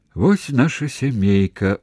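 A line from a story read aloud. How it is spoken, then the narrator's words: Gentle smiling mother. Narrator (Belarusian): усміхаючыся сама сабе, лагодна сказала маці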